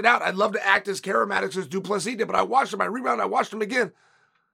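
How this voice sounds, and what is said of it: Hoarse, fading voice. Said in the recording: “I've been on a flight ... I'm losing my voice”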